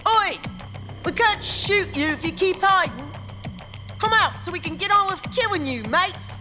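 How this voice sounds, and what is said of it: Overdone fake rough city accent. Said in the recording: “now that was plain awful. She was trying too hard. That wasn't a rough's accent at all. It was inner-city rough's enclave accent with a bit of upper-crust theater thrown in ... The resulting accent was ridiculous”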